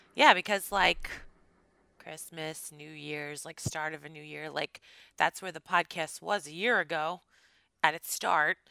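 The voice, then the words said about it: Slightly scratchy, strained voice. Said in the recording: “my voice is a little scratchy ... my voice, if it sounds funny ... my voice is like not having it”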